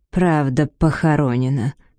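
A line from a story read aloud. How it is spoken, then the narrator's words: Through teeth after sighing. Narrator (Russian): процедила она, глубоко вздохнув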